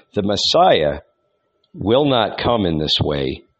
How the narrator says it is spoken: murmured the young man

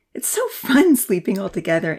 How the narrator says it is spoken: Amy giggled

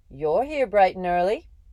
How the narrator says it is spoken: said cheerfully

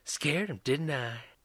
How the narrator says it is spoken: Beth whispered to Tracy

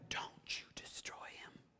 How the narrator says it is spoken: David whispers back to Abishai

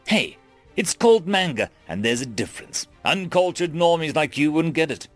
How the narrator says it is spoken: exclaimed, with a faux haughtiness and a huffed and mocked exaggeration

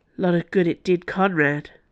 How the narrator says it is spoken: Dana said bitterly

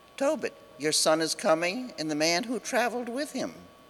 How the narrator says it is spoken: she exclaimed to his father

